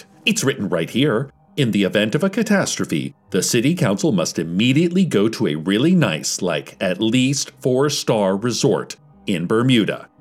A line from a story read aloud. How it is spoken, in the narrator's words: they shrieked